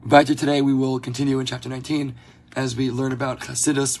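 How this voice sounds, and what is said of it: Hoarse, strained voice. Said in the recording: “Pardon my voice. I'm recovering from a cold, and for some reason, in evenings is when I lose my voice.”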